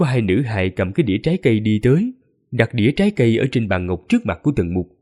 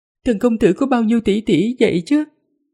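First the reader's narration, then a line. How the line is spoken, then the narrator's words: Giggling. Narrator (Vietnamese): Nữ tử kia cười khúc khích rồi nói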